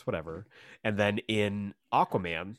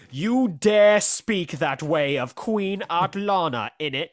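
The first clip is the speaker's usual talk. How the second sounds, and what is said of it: Exaggerated bad British accent. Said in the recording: “no accent... she's full blown... Amber Heard's British accent is just as bad”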